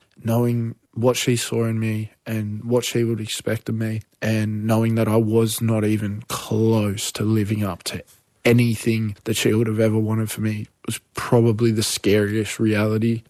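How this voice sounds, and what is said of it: Choked-up, emotional voice. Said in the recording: “get choked up ... I can tell that, like, this is a really hard thing for you to talk about.”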